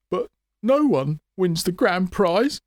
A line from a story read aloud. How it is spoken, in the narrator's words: he squeaked